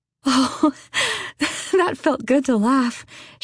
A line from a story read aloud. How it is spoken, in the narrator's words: she said breathlessly